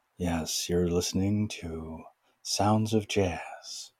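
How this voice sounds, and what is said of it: Calm public radio announcer voice. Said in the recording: “it's your NPR voice ... it's really fun doing the NPR voice, speaking very calmly.”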